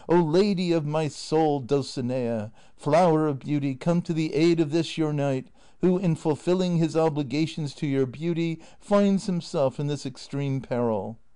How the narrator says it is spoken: Don Quixote, feeling the weight of this prodigious blow, cried aloud, saying

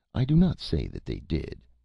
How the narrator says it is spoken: said the idiot calmly

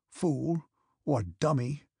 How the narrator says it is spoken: he muttered

